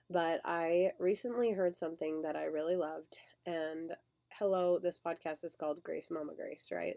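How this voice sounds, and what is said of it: Voice sounds sick, not normal. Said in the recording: “you can hear my voice is still not what it normally is ... struggling with sickness”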